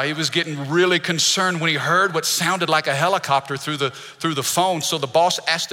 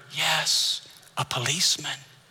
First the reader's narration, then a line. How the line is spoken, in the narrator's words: The child whispered